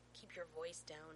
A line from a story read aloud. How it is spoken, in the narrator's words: John hisses